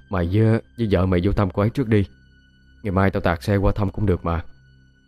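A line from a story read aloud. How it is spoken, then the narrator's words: Sighing sleepy reply. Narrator (Vietnamese): Hắn thở dài, ngáy ngủ trả lời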